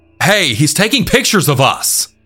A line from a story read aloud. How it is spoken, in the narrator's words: we all start yelling at him, mouthing off to him